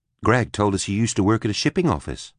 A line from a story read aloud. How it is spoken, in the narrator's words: Eleanor said